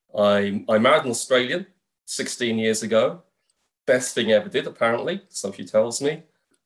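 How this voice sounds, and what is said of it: Accent unlike typical Australian. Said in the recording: “your accent was maybe a little bit different from the average Australian accent.”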